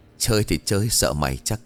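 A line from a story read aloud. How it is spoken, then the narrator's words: Laughing. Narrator (Vietnamese): bật cười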